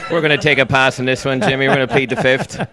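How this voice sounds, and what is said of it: Speaks with a noticeable accent. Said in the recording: “Don't let the accent fool you.”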